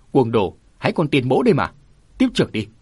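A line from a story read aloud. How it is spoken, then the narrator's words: Loud shout. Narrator (Vietnamese): Tiền huynh quát to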